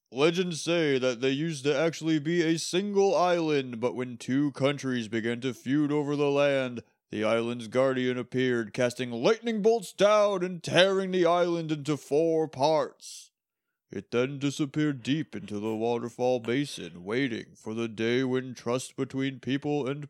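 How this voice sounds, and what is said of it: Game show character narrator voice. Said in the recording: “Give me that Olmec voice ... you want me to do the Olmec?”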